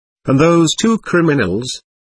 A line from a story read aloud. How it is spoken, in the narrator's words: asked